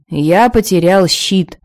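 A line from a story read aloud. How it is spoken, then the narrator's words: Gloomy. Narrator (Russian): мрачно сообщил Торир Прогалина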